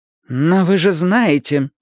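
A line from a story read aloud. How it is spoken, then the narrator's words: Gloomy. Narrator (Russian): сказала мрачно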